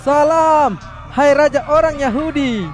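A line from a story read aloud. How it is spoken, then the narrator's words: Mocking shout. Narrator (Indonesian): pura-pura memberi hormat kepada Yesus dengan berteriak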